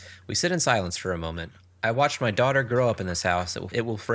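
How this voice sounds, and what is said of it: Usual voice. Nothing is said of it.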